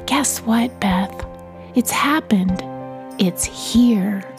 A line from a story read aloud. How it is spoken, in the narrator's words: Wind whispered in my ear